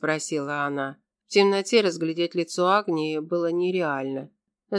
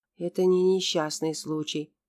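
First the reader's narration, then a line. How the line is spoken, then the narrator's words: Whisper. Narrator (Russian): прошептала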